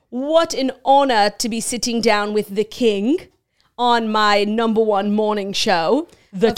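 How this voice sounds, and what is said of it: Poorly done put-on accent. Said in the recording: “I cannot do this accent.”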